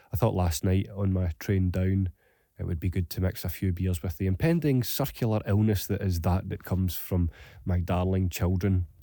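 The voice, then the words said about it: Hoarse voice. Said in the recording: “It's not only my voice that's hoarse this morning... I sound altogether different”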